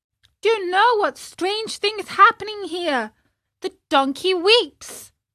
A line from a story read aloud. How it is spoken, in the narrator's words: cried the marionette